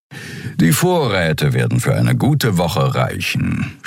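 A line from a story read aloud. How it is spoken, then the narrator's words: Purring. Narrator (German): schnurrte Suran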